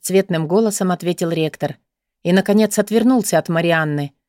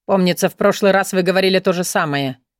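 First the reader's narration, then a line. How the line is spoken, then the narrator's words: Venomous grumble. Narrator (Russian): ядовито пробурчал Алан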